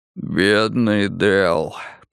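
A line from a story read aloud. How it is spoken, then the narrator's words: Hoarse rasp. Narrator (Russian): прохрипел он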